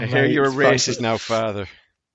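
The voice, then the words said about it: Put-on Irish accent. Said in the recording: “there's the racist Irish accent there, just making a little entrance at the end”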